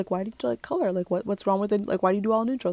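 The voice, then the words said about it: Funny put-on questioning voice. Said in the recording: “do that funny voice”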